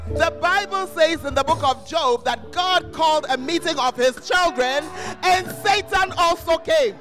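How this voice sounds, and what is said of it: Screaming, loud strained voice. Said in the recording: “change the mic for me if you won't give me better sound because I'm screaming.”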